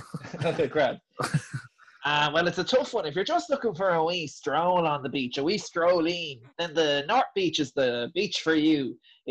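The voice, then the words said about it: Nasal, throaty imitated accent. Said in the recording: “quite nasal, isn't he? Like, he's quite in the throat ... am I just doing the accent”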